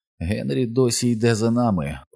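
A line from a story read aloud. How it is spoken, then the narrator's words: Quiet, hoarse voice. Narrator (Ukrainian): промовив Стен тихим, хрипким голосом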